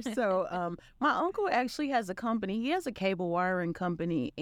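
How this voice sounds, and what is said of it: Arkansas Southern US accent. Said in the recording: “I'm from Arkansas, and you can hear in the accent. And when I talk about Arkansas, the accent comes out a lot more.”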